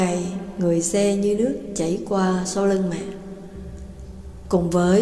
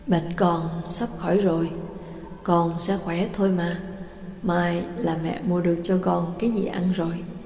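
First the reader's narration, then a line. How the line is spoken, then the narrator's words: Mother's gentle murmur. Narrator (Vietnamese): mẹ lẩm bẩm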